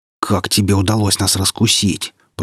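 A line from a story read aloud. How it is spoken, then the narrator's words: Hissed. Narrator (Russian): прошипел лже-капитан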